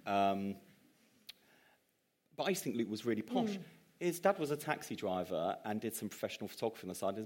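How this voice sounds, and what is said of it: Plummy English accent, slight East End twang. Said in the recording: “I've got a plummier accent now than I used to have. You can hear the East End twang”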